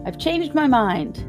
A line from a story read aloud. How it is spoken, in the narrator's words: said in a loud voice